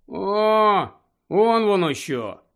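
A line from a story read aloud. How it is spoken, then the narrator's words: Sigh. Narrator (Ukrainian): зітхнув Рон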